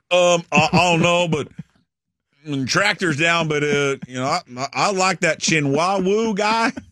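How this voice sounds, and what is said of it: Put-on southern accent. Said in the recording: “I don't know why he gave him a southern accent.”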